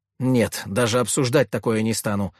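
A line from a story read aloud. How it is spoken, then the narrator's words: Sharp objection. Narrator (Russian): резко возразила Екатерина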